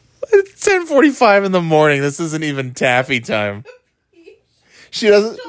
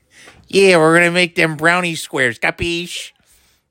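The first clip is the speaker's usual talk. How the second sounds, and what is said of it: Put-on Rochester accent impression. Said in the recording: “That's what she sounds like to me. That Rochester accent in Detroit.”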